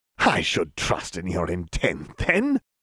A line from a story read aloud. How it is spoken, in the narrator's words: Voldemort laughed